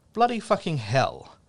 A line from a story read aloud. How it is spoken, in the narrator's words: It was my exclaiming